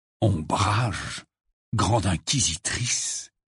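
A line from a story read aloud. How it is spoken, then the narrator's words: Gloomy murmur. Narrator (French): murmura Harry d'un air sombre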